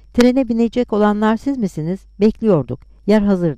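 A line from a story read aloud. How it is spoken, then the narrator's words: Plain. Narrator (Turkish): dedi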